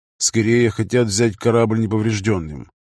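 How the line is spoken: Gloomy reply. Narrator (Russian): мрачно отозвался Брэд

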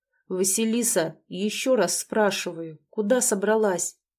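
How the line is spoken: Icy growl. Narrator (Russian): Он ледяным тоном проговорил, а если конкретнее, то прорычал

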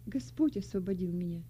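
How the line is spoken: Calm young woman's reply. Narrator (Russian): спокойно ответила молодая христианка

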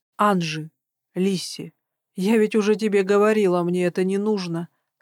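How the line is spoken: Plain. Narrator (Russian): сказала я

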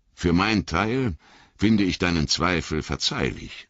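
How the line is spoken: Plain. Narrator (German): sagte er

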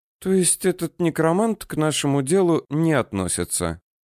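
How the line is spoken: Sleepy. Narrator (Russian): сонно сказала Руся

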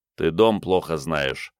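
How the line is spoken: Muttering. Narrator (Russian): пробормотал Игорь

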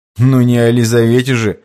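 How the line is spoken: Snorting chuckle. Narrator (Russian): хмыкнул боярин

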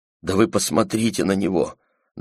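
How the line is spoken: Trembling voice, Chinese woman. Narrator (Russian): дрожащим голосом сказала Петти китаянка

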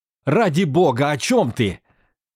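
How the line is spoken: Furious shout. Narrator (Russian): яростно выкрикнул он

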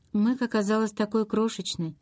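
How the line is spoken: Quiet, flat voice. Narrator (Russian): сказала Розмари тихим, бесцветным голосом

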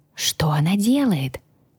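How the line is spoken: Quiet question. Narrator (Russian): тихо спросил Джин

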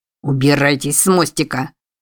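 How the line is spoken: Growl. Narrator (Russian): рыкнул Балантайн

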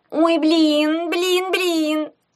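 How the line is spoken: Terrified shriek. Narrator (Russian): Завизжала она в ужасе

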